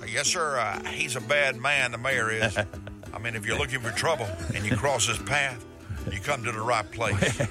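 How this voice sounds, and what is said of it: Elvis impersonation voice. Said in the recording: “This here's the Elvis impersonator.”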